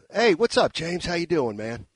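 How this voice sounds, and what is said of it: Hoarse Steve Kerr impression. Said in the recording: “Let me see if I can get the Steve Kerr a little bit hoarse.”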